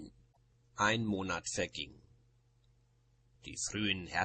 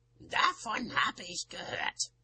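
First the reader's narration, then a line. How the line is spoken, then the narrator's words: Cool grumble from grandmother. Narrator (German): brummte Oma kühl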